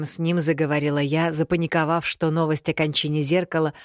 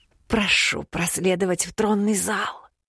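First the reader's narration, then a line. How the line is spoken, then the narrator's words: Barely audible, wary. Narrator (Russian): Едва слышно закончил слуга, опасливо переспрашивая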